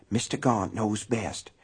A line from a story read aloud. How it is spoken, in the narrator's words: muttering